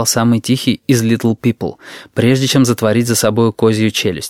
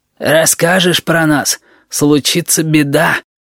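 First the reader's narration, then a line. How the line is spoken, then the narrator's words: Hoarse warning. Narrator (Russian): на всякий случай добавил хриплый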